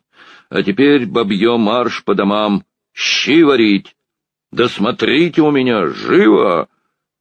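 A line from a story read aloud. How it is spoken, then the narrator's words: Encouraging, jaunty shout. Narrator (Russian): крикнул он подбодряющим, молодцеватым голосом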